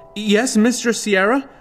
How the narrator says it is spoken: She asked nervously

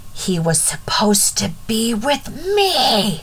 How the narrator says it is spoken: She screamed

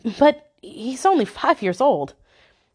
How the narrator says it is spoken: I stuttered

